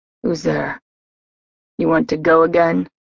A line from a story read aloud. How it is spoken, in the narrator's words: he growled from a corner